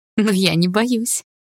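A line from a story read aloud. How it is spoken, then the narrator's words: Ringing laugh. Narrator (Russian): звонко рассмеялась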